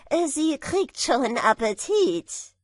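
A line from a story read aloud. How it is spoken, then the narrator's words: Tailor calling out. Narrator (German): rief der Schneider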